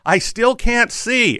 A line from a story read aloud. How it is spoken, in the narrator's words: he started shouting